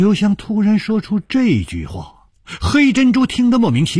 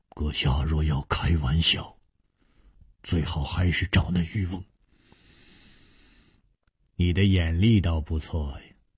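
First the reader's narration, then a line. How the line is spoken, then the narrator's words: Cold. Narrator (Chinese): 冷冷地说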